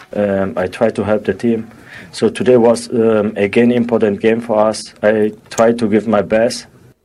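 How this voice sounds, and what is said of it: German accent in English. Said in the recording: “German accent ... this is a European accent”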